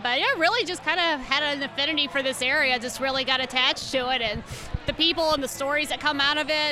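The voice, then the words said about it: Cajun accent. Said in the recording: “That's the accent that you're trying ... Cajun ... To figure out why she sounds that way.”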